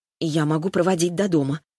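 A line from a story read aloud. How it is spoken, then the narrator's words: Hesitant offer. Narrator (Russian): предложила неуверенно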